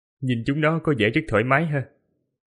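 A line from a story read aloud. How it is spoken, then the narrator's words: Smiling. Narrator (Vietnamese): Thiếu niên thần bí mỉm cười, nói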